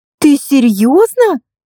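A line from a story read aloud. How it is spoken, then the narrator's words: Exclaimed. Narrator (Russian): воскликнула Катя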